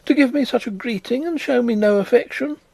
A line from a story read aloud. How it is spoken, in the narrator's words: cried Miss Pross